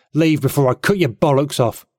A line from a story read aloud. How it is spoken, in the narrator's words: he snarled, priming for a fight